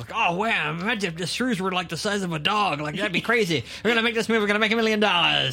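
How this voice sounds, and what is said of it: Roger Corman impression. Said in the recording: “you do that impression”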